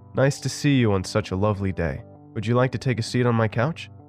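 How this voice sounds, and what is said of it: Friendly tone, slight bad German accent. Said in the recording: “in a friendly tone with a hint of a bad German accent”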